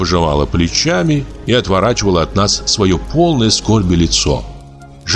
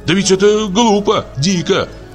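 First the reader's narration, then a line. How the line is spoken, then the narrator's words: Shouted in chorus. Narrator (Russian): кричали мы ей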